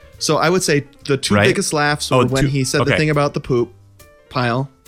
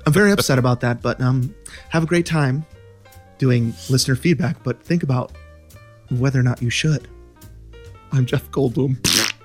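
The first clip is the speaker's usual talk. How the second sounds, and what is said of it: Jeff Goldblum impression. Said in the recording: “That was a terrible impression.”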